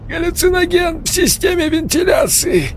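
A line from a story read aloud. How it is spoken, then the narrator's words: Groaning. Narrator (Russian): простонал техник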